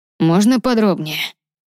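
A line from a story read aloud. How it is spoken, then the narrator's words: Asked through gritted teeth. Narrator (Russian): сквозь зубы спросил Ронан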